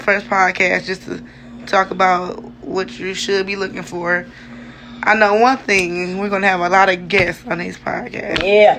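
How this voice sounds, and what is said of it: Sick, strained voice. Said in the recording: “Excuse my voice. Still a little sick.”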